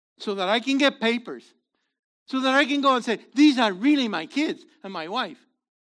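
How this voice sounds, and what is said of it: Non-American English accent. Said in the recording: “my accent is bad news. I need an American accent. I don't have one.”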